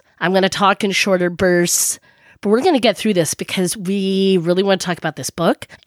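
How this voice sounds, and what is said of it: Sick, rough crusty voice. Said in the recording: “hear in my voice, I'm a bit sick ... just a little bit crustier”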